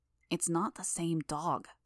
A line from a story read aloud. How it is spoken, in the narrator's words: Rachel hissed the words